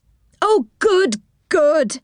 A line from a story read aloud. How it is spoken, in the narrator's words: cried